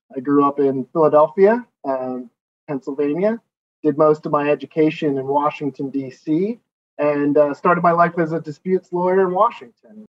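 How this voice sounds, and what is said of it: American accent. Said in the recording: “as you can tell from my accent, I'm from the United States”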